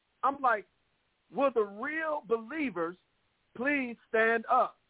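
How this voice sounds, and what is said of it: Indignant, impassioned preaching voice. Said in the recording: “This is what you hear in my voice. I'm indignant... This is righteous indignation.”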